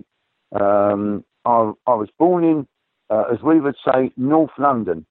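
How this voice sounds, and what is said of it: Non-American accent. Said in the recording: “Obviously, you're not from the States. I think we can gather that from your accent.”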